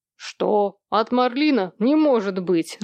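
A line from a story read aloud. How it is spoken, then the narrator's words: Laughing. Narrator (Russian): рассмеялся Сэм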